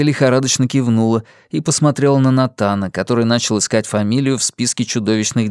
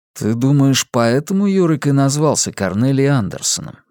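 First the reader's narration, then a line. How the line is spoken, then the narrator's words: Plain. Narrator (Russian): сказал Йона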